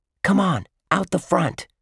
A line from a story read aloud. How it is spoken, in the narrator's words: Josh whispered to Dink